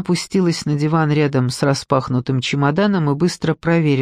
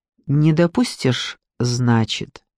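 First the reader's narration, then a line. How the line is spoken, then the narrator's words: Calm question. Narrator (Russian): спросила Лиза спокойно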